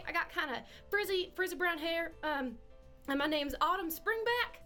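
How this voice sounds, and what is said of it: Put-on accent for a character. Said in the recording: “I feel personally attacked by your accent.”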